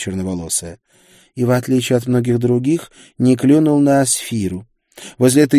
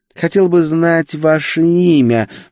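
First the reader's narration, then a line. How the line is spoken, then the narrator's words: Purring female. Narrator (Russian): промурлыкала она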